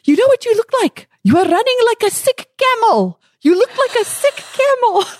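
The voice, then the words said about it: Imitates a man's accented voice. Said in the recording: “I'll never forget his great accent.”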